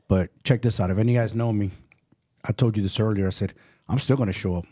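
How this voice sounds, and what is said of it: Slightly off voice, dry throat. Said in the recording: “If I sound a little funny, my voice is, I'm battling a little cold right now ... I could tell like my throat's a little dry”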